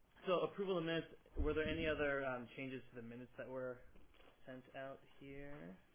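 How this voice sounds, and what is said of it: Strained, fading voice. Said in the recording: “I'm losing my voice, I'm talking all morning.”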